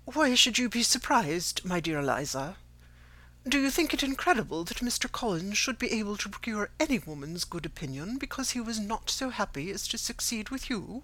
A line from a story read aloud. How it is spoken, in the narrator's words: she soon regained her composure, and calmly replied